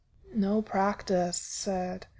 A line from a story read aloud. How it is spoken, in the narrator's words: he murmurs